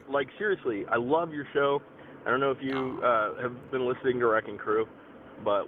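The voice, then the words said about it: Froggy, husky throat. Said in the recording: “I have a frog in my throat.”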